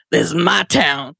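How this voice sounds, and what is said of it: Imitates another person's voice. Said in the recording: “my Big Jim impression.”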